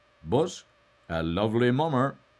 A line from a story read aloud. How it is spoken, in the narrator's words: he murmured to himself